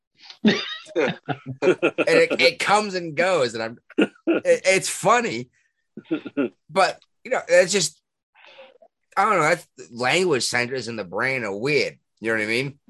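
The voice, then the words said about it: Thick Boston accent. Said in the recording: “my Boston accent got thicker than it was ... Thicker than when I left the area.”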